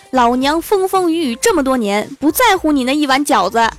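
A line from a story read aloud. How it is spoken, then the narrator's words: Shouting in sleep. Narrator (Chinese): 已经睡着的室友大喊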